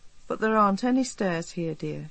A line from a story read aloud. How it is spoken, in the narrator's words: she said kindly